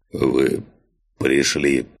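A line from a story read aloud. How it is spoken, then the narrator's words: Hoarse rasp. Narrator (Russian): прохрипел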